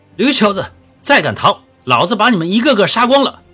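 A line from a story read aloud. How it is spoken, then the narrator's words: Fierce loud shout. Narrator (Chinese): 滚地龙 大声喝道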